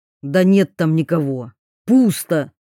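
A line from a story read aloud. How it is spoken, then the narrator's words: Angry reply. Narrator (Russian): зло ответил Гоглидзе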